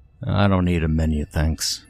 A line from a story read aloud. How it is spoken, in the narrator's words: I grumbled, the antithesis of her bubbly demeanor